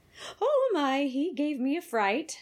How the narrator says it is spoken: she said, laughing lightly

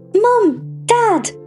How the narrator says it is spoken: she called out

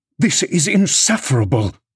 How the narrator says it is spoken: he exclaimed

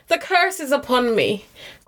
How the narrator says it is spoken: cried the Lady of Shalott

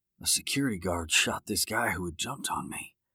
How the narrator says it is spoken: Brad whispered

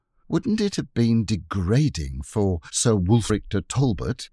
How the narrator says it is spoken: said Jane dreamily

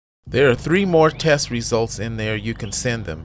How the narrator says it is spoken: Herbert says

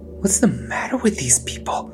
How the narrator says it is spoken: Alpa hissed in quiet panic

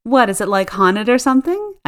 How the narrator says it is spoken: said with a laugh

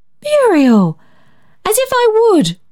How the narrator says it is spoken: cried Barbara in flushed horror

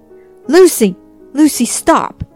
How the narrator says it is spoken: yelled Lucy's father

